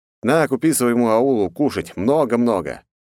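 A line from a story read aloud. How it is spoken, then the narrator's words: Smirking grunt. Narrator (Russian): хмыкнул я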